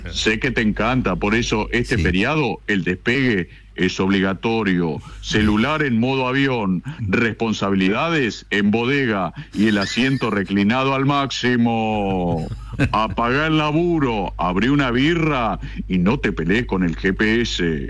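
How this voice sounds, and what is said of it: Speaks in a put-on woman's voice. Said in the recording (Spanish): “¿te gusta mi voz de mujer?”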